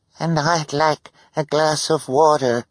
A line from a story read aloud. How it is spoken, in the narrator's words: the woman said in a weak voice